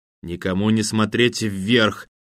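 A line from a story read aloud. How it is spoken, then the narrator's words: Through gritted teeth. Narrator (Russian): сквозь зубы процедила Татьяна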